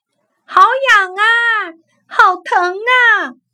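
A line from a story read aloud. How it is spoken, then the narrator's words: Loud complaining cry. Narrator (Chinese): 小松树就大声嚷起来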